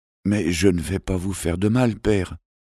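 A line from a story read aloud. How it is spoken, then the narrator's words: Prince whispering. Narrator (French): avait chuchoté le prince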